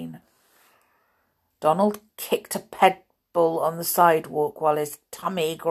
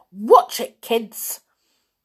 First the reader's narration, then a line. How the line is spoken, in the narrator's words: Donald shouted